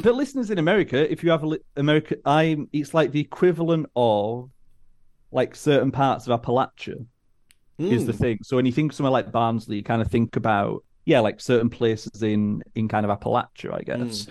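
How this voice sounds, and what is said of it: Northern English Barnsley accent. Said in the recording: “listeners in America who are baffled by ... accent ... my accent often reads Australian”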